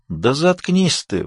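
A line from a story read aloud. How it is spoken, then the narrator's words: Tired. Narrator (Russian): устало сказал Вайлин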